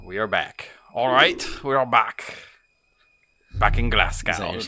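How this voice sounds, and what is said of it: Bad put-on Scottish accent. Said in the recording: “Terrible Scottish accent.”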